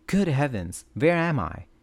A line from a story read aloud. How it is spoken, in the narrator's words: she cried out